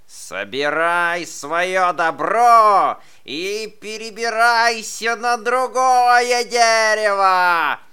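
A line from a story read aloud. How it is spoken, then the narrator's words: Badger's angry shout. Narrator (Russian): закричал барсук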